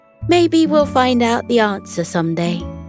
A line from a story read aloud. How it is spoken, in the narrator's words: she said